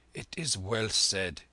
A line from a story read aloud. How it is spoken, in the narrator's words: he muttered in a changed voice